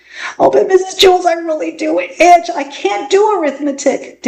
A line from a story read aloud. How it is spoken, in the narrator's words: Dana whined